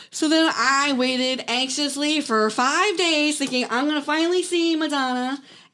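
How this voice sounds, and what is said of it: Loud excited yelling. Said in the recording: “sorry, I'm yelling because I'm very excited about this”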